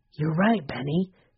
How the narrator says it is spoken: Henry whispered

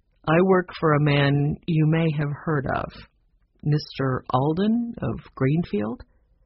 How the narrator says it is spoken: Carter answered slowly

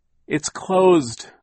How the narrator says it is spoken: Klaus cried, his voice rising with despair and in order to be heard over Hurricane Herman

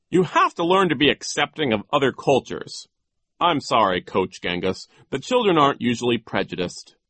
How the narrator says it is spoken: Poe said sternly

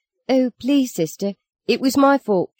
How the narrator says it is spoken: she squeaked

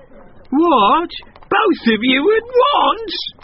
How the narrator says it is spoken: the donkey screeched

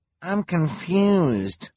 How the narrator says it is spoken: whined a volunteer

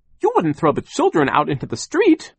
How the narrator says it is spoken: Charles cried

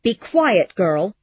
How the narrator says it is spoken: cried Ellen angrily

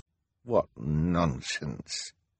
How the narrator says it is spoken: Hal muttered

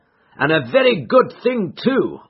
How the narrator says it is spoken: cried

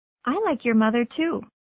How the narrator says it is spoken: said Mary

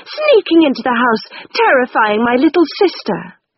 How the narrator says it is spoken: cried furiously

